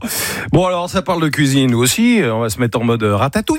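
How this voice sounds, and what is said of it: Strong English accent in French. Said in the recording (French): “t'avais un accent anglais de ... merde”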